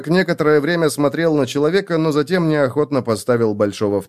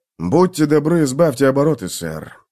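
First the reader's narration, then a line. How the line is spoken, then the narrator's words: Sighing. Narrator (Russian): вздохнул сержант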